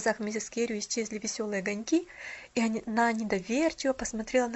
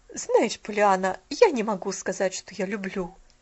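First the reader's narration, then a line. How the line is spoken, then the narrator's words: Cold reply. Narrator (Russian): холодно ответила миссис Керю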